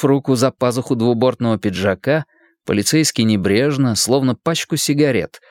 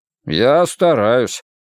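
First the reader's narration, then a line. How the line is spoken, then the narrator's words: Grumbling policeman. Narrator (Russian): проворчал полицейский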